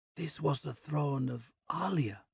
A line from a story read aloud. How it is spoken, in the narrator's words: Osgard whispers